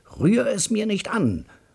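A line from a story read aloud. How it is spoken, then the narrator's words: Bellowing brother. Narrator (German): brüllt mein Bruder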